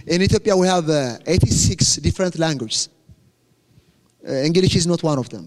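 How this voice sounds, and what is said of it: Ethiopian-accented English. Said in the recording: “some of you are struggling to understand my accent”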